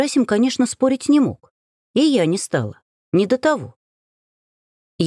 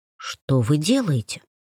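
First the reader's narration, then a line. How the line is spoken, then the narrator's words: Whispered. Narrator (Russian): шепнул Стрельцов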